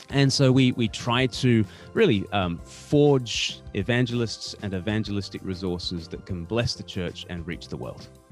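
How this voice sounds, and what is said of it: Australian accent. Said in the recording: “you're obviously not from England. You can hear it in the accent ... you're Australian”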